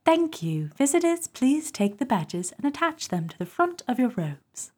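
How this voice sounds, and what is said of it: Put-on British Essex accent. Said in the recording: “can you do it with like a Commonwealth accent, like a British accent? ... Oh, that was pretty good. That's pretty good. ... That's so Essex.”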